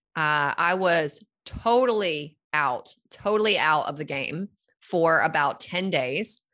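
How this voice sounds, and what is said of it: Voice still sounds sick. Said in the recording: “you can probably still hear it in my voice ... still having some residual from that ... a lingering cough”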